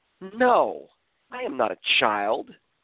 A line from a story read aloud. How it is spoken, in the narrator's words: Rahane responded in an offensive tone, saying